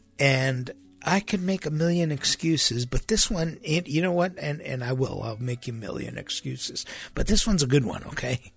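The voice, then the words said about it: Nasal, strained recovering voice. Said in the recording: “I lost my voice. And I'm still recovering from it. You might be able to tell. It's kind of nasally.”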